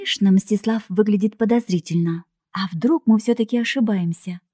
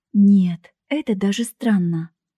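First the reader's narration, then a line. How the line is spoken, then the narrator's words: Indignant. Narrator (Russian): возмутилась я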